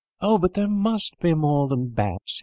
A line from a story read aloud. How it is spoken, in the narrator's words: cried